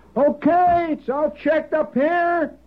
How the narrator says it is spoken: Somebody hollered

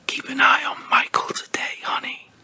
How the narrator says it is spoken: Mom she whispered quietly

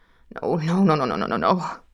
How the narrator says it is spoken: I murmured to myself

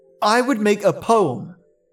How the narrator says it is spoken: Fionn cried

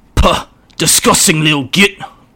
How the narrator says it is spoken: Urk spat

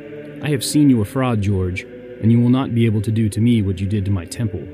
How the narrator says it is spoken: said the priest

